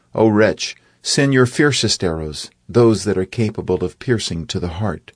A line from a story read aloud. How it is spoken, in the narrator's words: He called out